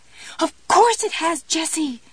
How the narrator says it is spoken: Pumpkin screamed

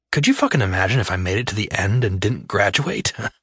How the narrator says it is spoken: I scoffed

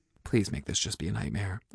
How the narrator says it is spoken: whispered

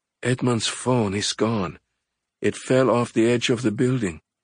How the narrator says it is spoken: she said with a remorseful sigh

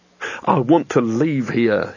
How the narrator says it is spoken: he said urgently

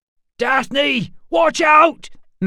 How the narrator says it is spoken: Matt yelled

